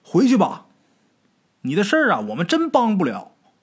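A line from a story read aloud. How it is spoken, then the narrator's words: Shouting back. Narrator (Chinese): 黄泉就跟着回着喊了一句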